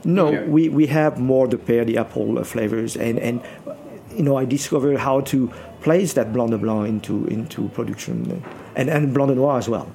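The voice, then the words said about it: French accent. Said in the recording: “he was the guy with the French accent.”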